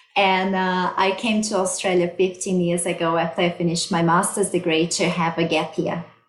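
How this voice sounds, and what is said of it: Brazilian Portuguese accent in English. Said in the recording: “I'm originally from Brazil. That's why I have this beautiful accent.”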